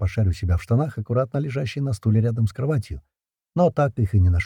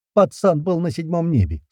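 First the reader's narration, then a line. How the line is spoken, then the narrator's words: Laughing. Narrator (Russian): снова засмеялась Света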